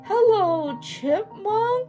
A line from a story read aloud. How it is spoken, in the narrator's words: he said drowsily